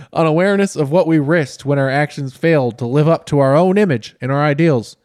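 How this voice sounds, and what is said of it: Exaggerated put-on southern accent. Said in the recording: “Now you're doing a southern accent that he doesn't have. ... You're turning into Foghorn Leghorn.”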